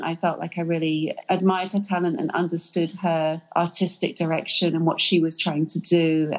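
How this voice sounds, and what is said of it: British English accent. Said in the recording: “judging from your accent, you're not from the U.S., right? You're from England, right? ... I am British”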